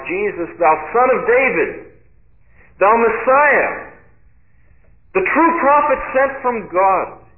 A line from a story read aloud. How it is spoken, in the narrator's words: he cried out when Jesus came by